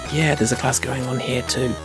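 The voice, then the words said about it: Hushed voice. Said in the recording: “in a hushed voice,”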